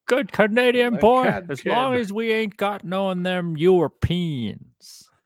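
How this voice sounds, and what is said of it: Don Cherry impression. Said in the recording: “That's not Don Cherry's voice, but that's my Don Cherry impression. ... You started off well. ... you mixed in some of that Buffalo announcer in there.”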